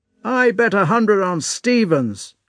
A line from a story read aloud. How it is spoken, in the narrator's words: shouted one